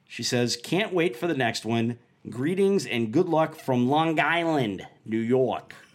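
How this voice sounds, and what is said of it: Exaggerated Long Island accent. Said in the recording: “That's my terrible Long Island accent.”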